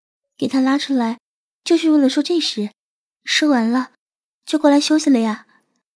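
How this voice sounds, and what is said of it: Quiet, soft-spoken delivery. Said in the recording (Chinese): “红着脸，小声说”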